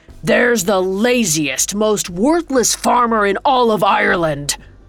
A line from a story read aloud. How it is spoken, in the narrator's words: Tom spat